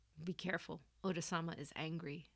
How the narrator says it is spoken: Tanaharu's voice dropped as he quietly warned

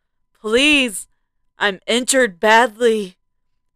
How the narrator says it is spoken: I cried, breathing heavily

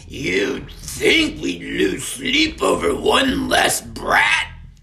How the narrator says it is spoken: spat Murkle

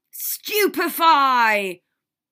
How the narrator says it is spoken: yelled all the adults' voices

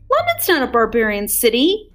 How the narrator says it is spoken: shouted Tom

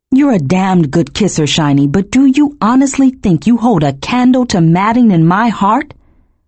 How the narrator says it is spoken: I laughed, my own voice echoing harshly in my ears

